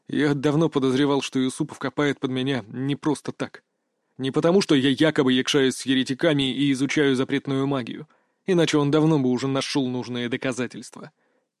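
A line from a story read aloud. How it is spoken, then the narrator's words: Quiet. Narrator (Russian): тихо произнес Петр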